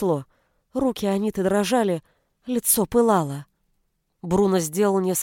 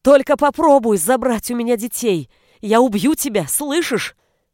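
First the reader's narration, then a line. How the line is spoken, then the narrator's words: Screamed. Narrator (Russian): заорала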